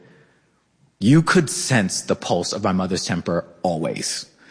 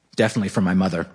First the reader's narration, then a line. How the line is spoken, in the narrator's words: I said